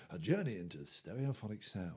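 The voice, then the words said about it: Imitated RP narrator accent. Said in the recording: “all narrated by this RP accent going”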